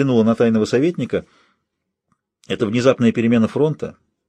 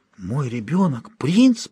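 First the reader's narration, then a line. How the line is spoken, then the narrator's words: Whisper. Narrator (Russian): прошептала она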